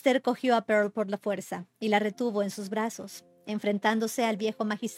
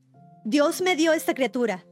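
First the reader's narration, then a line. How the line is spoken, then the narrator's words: Shouted. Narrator (Spanish): gritó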